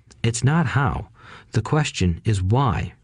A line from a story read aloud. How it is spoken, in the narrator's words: rich dad said